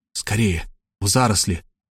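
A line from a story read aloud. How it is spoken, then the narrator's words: Whispered. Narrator (Russian): шепнул я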